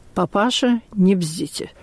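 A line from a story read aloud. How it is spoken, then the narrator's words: Quiet, pointedly restrained anger. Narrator (Russian): У солдата заходили желваки, но он только сказал тихо и подчеркнуто сдержанно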